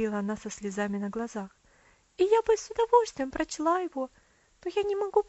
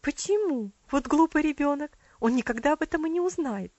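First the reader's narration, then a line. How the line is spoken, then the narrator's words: Quick exclamation. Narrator (Russian): быстро воскликнула ее тетя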